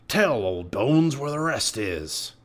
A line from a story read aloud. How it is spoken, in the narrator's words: growled